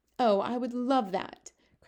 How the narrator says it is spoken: cried

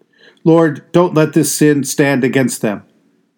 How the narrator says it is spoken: shouted at the top of the voice

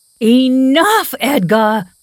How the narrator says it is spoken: I shouted

